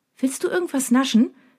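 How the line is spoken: Cheerful question. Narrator (German): fragt sie mich fröhlich

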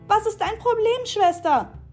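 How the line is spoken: Screamed, pained and stunned. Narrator (German): schrie sie, sodass jeder den Schmerz und die Fassungslosigkeit in ihrer Stimme hören konnte

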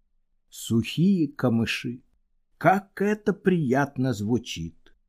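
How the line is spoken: Sighing, less tragic. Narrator (Russian): Короед вздохнул еще раз, но уже не так трагично

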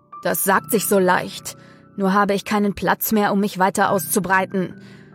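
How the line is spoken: Man's growled reply. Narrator (German): knurrte der Mann zurück

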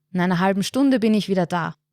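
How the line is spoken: Calling out. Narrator (German): ruft er den Dorfbewohnern zu

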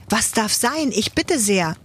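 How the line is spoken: Startled calling. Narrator (German): ruft Ladislaus erschrocken

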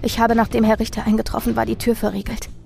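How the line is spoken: Trembling stammer, crying. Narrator (German): stammelte ich mit zitternder Stimme und begann zu weinen

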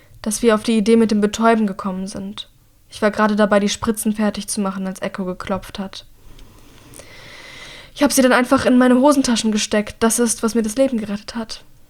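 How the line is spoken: Croaked. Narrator (German): krächzt Mira schließlich

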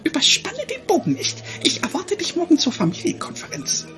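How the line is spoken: Mother hissing. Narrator (German): ihre Mutter zischte nur

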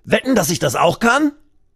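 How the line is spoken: Call. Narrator (German): Dann ruft er

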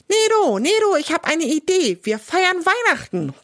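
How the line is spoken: Calls out. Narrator (German): ruft

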